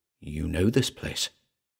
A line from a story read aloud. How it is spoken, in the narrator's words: another part whispered